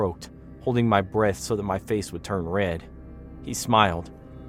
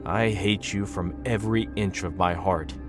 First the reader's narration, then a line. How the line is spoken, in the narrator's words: he said